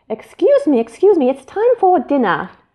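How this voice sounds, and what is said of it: Weak put-on British accent. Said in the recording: “I pretended to have a British accent, which I really can't do.”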